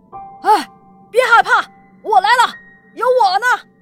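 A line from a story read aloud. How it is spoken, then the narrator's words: Old man shouting while running. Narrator (Chinese): 苗大爷……边跑边喊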